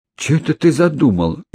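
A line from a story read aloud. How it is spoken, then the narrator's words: Frightened mutter. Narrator (Russian): испуганно пробормотала она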